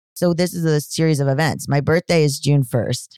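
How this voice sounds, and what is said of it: Deepening voice, slightly monotone. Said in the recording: “my voice is just dropping. But so I'm getting past the part of testosterone where you sound monotone, but it's still a little bit there.”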